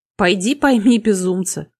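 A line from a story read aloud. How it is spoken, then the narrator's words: Snorting. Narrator (Russian): хмыкнул Гордин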